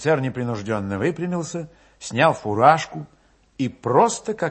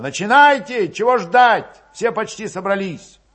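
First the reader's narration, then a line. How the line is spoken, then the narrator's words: Young voice shouting. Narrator (Russian): крикнул молодо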